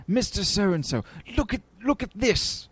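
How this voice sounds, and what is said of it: British accent imitating an actor. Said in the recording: “That's my British accent. ... That's a great James Mason. ... my James Mason is Eddie Izzard's James Mason”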